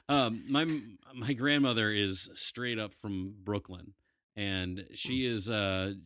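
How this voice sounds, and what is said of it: New York accent. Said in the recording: “My grandmother is from New York. You can hear that accent through me”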